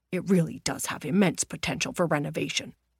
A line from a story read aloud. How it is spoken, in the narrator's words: whispered